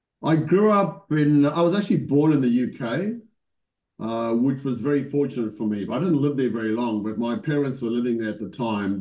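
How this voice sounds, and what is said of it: South African accent. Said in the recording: “I think you got a South African accent”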